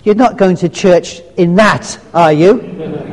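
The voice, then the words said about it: Scottish accent. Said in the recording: “Come with a Scottish accent. ... Yeah, it does come with a Scottish accent”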